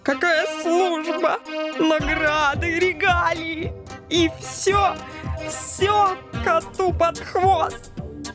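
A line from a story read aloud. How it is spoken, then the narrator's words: Near sobbing, offended. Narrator (Russian): Суперагент уже почти рыдал от обиды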